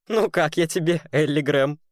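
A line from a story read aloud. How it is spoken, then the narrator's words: Laughing loudly. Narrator (Russian): хохотал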